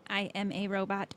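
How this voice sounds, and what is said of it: Robot voice. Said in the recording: “in a robot voice”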